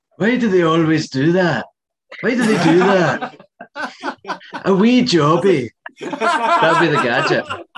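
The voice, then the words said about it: Billy Connolly impression. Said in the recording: “That's a great impression. ... where else would you go but Billy Connolly?”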